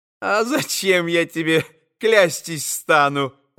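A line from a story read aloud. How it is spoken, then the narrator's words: Laughing. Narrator (Russian): засмеялась Агафья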